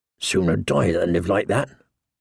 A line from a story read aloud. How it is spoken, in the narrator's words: muttered one, his father's namesake, Eddard